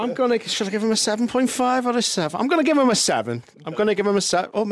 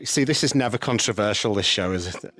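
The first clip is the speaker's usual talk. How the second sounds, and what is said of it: Sarcastic tone. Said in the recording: “I'm being sarcastic.”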